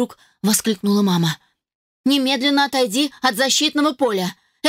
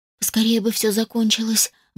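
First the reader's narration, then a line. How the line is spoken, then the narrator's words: Sighing maidservant. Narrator (Russian): вздохнула одна из служанок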